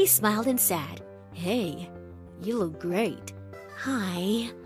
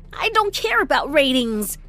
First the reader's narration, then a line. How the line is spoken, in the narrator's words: I snapped